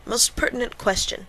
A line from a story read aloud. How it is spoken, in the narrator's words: the professor said between his chews, with an accent on the whose